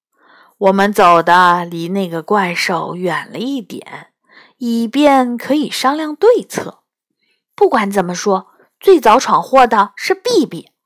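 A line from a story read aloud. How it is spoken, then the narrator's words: Laughing. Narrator (Chinese): 比比笑着说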